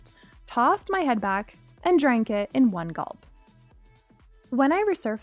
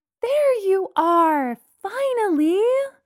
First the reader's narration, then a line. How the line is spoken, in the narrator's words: she shouted happily